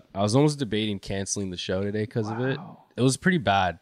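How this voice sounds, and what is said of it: Hoarse, strained voice. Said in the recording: “my voice is a little fucked up ... This guy had no voice”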